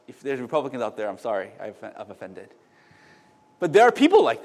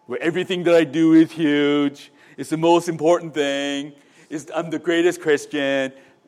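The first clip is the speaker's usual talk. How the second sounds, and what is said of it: Imitates another person's voice. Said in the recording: “That's my Donald Trump impression”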